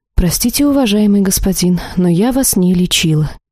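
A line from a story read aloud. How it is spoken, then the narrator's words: Quiet but very confident. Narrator (Russian): тихо, однако очень уверенно произнесла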